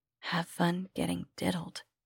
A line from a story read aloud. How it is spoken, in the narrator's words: she whispered